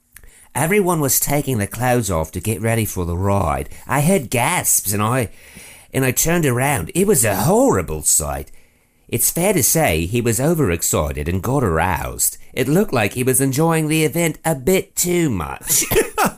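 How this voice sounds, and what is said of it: Put-on British accent. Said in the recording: “I'll try to pull in my best British accent.”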